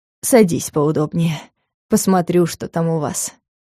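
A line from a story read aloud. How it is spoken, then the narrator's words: Condescending grumble. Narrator (Russian): снисходительно буркнула ведьма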